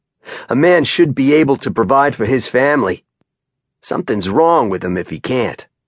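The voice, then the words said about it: Thick Down East Maine accent. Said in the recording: “in his thick Down East accent”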